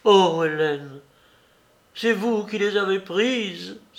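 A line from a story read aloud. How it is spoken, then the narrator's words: Exclaimed. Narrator (French): s'écria-t-elle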